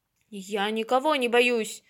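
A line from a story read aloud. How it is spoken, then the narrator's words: Fearsome lion's roar. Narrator (Russian): страшно зарычал лев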